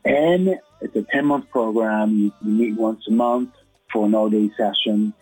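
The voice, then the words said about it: Speaker's own noticeable accent. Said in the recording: “my accent ... people were more focused on my accent than they were on the content and substance of my words”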